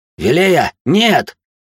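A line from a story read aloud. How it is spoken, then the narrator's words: Shouted. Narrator (Russian): прокричал я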